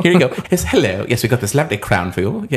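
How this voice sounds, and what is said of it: Put-on British accent. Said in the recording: “I just love doing the British accent.”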